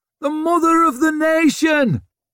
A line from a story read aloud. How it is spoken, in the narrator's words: roared another